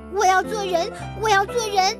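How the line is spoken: Shouting. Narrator (Chinese): 他喊道

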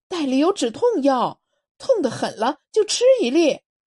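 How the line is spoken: Shouting. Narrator (Chinese): 新城喊道

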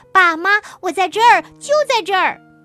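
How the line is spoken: Loud shout. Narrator (Chinese): 东东大喊

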